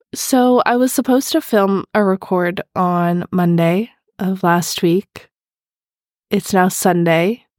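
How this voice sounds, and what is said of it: Voice sounds a little ill. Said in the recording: “I don't know if you can tell by my voice. I'm a little bit ill”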